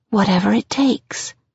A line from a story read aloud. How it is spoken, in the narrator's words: I whisper